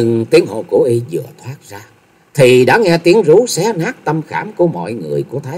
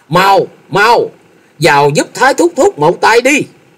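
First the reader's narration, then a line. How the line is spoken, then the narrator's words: Panicked shout. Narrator (Vietnamese): Thôi Dân thất kinh hét lớn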